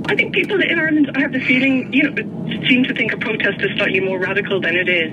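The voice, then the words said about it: Irish accent. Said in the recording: “you are clearly from your accent Irish”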